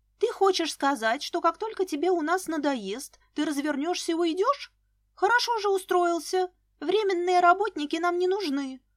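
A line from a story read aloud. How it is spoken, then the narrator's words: Exclaimed. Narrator (Russian): воскликнула Лиска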